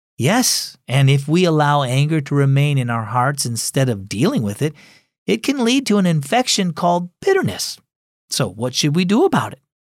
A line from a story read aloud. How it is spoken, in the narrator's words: Cora sighed